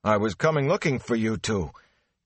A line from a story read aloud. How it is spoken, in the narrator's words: he panted